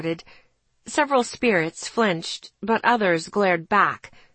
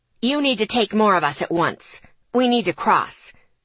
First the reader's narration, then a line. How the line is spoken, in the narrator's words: Davis snapped